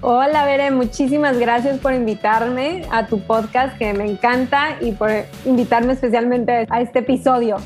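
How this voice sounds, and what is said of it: Mexico City Spanish accent. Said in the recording (Spanish): “acento del mero, mero México ... mi acento chilango, güey”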